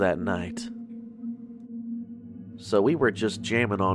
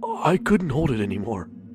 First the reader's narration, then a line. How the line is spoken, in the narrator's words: he said, whispering